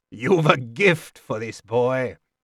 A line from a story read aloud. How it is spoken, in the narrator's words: Chade chuckled